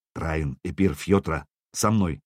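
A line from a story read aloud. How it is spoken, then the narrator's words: Quiet command. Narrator (Russian): негромко скомандовал Сергей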